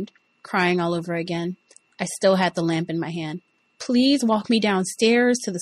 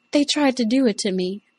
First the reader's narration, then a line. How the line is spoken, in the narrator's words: I cried